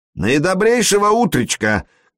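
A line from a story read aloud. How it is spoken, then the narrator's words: Booming shout, Irish accent. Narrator (Russian): крикнул он Флори зычным голосом, подбавив ирландского акцента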